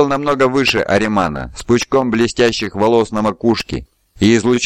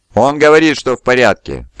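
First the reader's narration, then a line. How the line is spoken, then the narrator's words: Giant's booming voice behind. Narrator (Russian): прогудел подошедший сзади гигант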